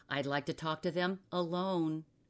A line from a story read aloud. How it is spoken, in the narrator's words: Asbury said in a forced voice